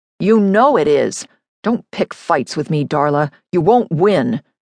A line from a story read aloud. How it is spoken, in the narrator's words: he said, his voice hard